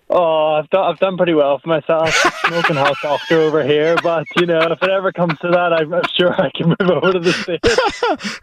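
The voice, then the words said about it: Foreign non-American accent. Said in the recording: “I love your accent, man. Oh my God! You know, if you don't live here, obviously in the U.S., man. If you had that accent”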